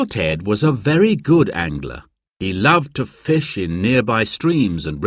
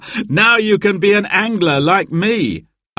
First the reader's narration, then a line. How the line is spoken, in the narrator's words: Uncle Ted said, laughing happily